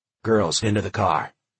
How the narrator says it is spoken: snapped, no hesitation

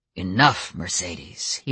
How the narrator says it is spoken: he growled

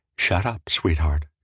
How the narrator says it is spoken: she said tenderly

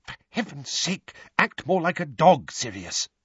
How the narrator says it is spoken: hissing

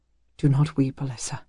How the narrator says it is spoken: he whispered

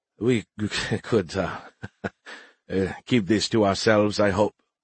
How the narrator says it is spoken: the Ruhar asked, laughing nervously

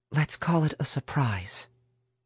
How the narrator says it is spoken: Mary whispered back, her tone saying quite clearly that that was the end of the subject

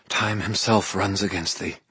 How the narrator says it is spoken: breathed out almost to herself

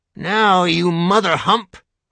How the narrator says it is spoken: Grandpop snarls

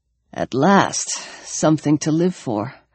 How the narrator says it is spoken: he said weakly

